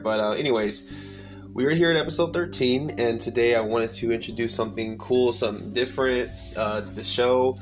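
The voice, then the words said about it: Hoarse, partly lost voice. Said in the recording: “my voice is a little out at the moment, but I'm still recovering from a certain virus... I still got, you know, some damage there”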